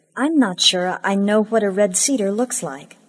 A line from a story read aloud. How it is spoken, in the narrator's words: I said